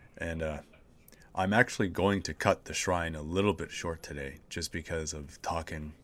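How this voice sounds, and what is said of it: Hoarse, sick-sounding voice. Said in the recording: “I legitimately have Nurgle's Rot. ... My voice is a little bit hoarse. ... I'm sick”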